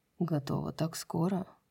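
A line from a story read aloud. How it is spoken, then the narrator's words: Muffled murmur. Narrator (Russian): Он пробормотал что-то у ее кожи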